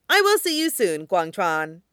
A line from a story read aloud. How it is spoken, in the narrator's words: he says